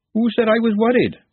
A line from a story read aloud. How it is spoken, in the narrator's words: Glenda snapped